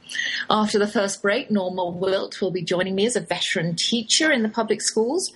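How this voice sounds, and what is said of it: English Oxford accent. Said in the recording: “that's my English accent you're hearing... I cannot shake the Oxford drawl”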